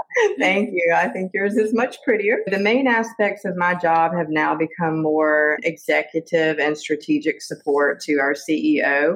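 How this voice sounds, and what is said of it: American Southern accent. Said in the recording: “which you can probably tell with my Southern accent ... beautiful Southern accent.”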